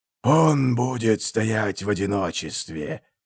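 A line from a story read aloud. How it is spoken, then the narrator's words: Hoarse rasp. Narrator (Russian): прохрипел меченосец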